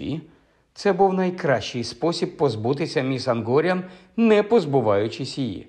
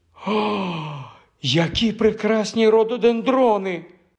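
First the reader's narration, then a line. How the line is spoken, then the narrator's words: Trembling exclamation. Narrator (Ukrainian): вигукнула міс Ангоріан своїм тремтливим голосом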